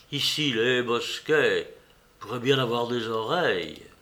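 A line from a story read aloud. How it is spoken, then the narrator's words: Mysterious tone. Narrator (French): d'un ton mystérieux, il ajouta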